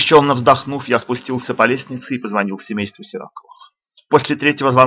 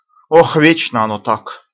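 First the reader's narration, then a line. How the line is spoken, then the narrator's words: Sigh. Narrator (Russian): вздохнула Лида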